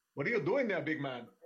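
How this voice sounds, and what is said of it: Odd, hard-to-place accent. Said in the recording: “they have a very odd, hard to place accent. They speak English, but it's like weird. There's something else in there.”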